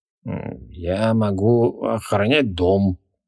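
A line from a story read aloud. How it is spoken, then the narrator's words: Uncertain. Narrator (Russian): неуверенно отозвался демон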